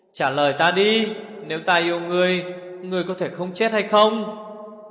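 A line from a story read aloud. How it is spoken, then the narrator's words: Shouting. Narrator (Vietnamese): Như Ca hét lên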